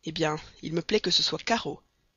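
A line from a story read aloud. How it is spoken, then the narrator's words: Irritated retort. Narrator (French): répliqua le colonel Proctor d'une voix irritée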